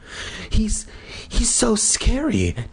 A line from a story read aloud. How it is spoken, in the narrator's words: Terry gasped